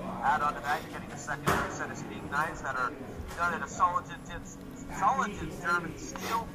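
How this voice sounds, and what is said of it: Polished announcer-style radio voice. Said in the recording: “my radio voice. Was that good? ... That was a good radio voice.”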